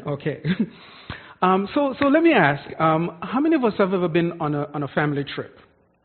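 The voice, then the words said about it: Jamaican accent. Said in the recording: “I'm from Jamaica, so if you hear an accent, that's where that is from.”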